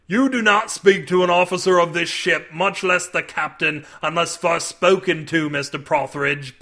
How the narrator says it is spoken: bellowed Lieutenant Marzaday

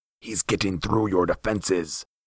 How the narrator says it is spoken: hissed the Raven Man

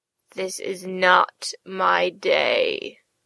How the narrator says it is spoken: she groaned

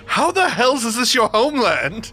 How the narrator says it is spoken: will shout back in Draconic

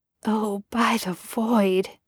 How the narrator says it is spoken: he muttered

